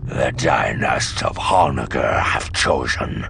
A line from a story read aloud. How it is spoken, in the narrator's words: he growled